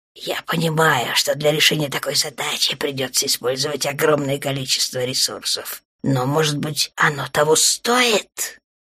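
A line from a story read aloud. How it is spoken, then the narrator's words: Hissing. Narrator (Russian): Снова шипение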